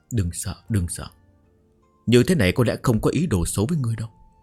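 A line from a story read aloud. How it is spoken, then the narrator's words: Muttering to herself. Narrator (Vietnamese): nàng lầm bầm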